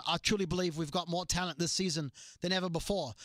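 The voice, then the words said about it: Put-on British Beatles-style accent. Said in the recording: “That was my Beatles impression of Simon Cowell ... that did sound like a Beatles ... I was pretty impressed ... My British is more like the Beatles”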